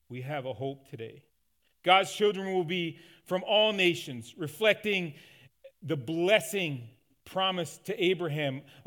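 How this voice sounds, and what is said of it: Newfoundland accent. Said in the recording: “us Newfoundlanders ... if you're wondering where my accent came from, there you go”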